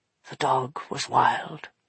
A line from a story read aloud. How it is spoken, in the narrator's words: he whispered